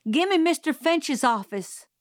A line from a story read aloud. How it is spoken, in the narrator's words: shouted